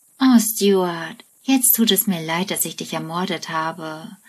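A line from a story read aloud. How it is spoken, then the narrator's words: Sighing. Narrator (German): seufzt Penny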